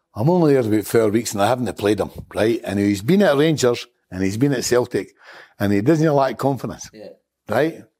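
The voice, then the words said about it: Strong regional accent. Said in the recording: “Excuse my accent.”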